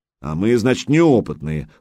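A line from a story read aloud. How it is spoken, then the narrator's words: Snorted. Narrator (Russian): фыркнул Гучко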